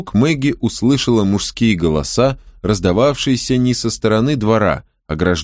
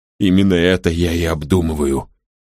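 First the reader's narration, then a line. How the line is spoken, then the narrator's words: Grumbled. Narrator (Russian): пробурчал он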